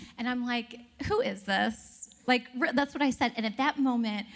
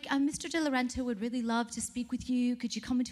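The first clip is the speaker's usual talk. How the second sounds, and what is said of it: Put-on accent, admittedly done badly. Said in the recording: “I'm botching this accent”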